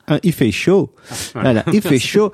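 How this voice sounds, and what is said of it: Put-on Québécois French accent. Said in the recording (French): “en mode québécois ... Tu nous fais un petit accent?”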